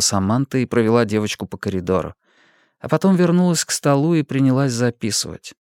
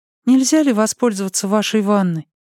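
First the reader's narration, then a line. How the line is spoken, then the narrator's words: Timid young girl asking. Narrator (Russian): А дочурка Мэнди, 11 лет, робко спросила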